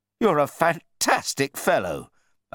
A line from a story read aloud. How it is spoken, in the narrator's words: I exclaimed